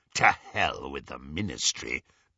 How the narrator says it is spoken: growled Greyback

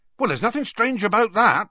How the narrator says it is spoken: Hagrid added hastily

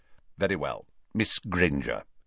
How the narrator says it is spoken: saying curtly

